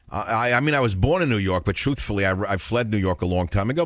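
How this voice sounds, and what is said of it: New York accent. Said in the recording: “a guy with a New York accent”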